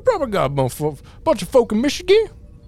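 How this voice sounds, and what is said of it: Put-on Creole accent. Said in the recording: “That's not a Michigan accent. I can only do, like, the weird Creole guy accent.”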